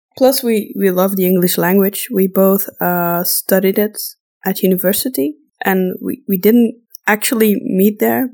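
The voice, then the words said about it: Non-native European English accent. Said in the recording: “we probably have a kind of a weird accent. But well, that's because we aren't native speakers ... we know we have accents ... I know we sound super Euro trash”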